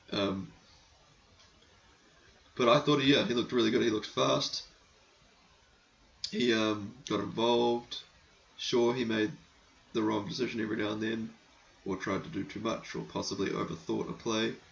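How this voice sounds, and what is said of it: Hoarse, failing voice. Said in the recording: “losing my voice.”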